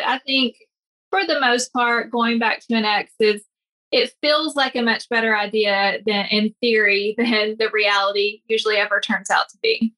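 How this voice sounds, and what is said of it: Tennessee accent. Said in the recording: “from Tennessee, right? I noticed an accent there.”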